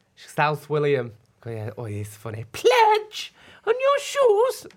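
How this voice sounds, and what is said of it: Impression of someone imitating the co-host. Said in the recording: “this is ... doing an impression of you”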